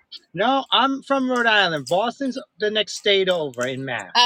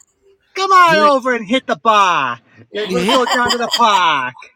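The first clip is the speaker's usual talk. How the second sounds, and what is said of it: Put-on Boston accent. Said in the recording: “that's how they talk in Boston, Mass.”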